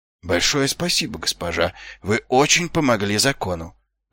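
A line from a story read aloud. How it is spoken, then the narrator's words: Muttered. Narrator (Russian): пробормотал Ваймс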